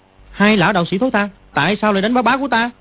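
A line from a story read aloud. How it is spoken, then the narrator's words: Angry child's shout. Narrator (Vietnamese): Dương Quá thấy hai đạo sĩ hết đấm lại đá Quách Tĩnh, Quách Tĩnh không hề trả đòn, thì nó tức giận quát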